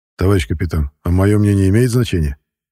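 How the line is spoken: Forced calm. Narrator (Russian): Я постарался, чтобы мой голос звучал спокойно

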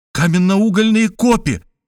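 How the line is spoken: Exclamation. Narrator (Russian): воскликнул я

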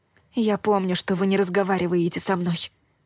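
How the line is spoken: Whispering. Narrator (Russian): шепнула я костяным рунам

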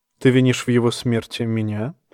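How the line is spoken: Soft question. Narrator (Russian): мягко спросил Эурон

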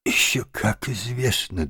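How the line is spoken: Trembling small voice. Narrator (Russian): дрожащим голоском подтвердил крот

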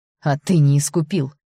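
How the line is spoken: Growled. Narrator (Russian): прорычала я

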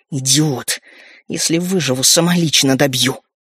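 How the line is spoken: Hissing. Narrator (Russian): Шипение повторилось

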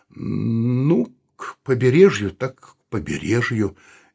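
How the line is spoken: Uncertain. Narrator (Russian): неуверенно сказал Саул

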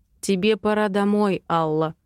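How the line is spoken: Even, level voice. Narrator (Russian): произносит он ровным голосом

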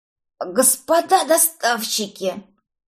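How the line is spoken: Hoarse rasp. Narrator (Russian): прохрипела я

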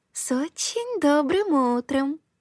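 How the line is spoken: Smiling purr. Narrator (Russian): промурлыкала она, широко улыбаясь

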